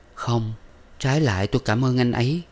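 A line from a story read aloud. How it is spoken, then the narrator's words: Sighing. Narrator (Vietnamese): Minh thở dài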